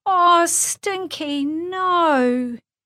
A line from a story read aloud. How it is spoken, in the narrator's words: She heard Lulu wail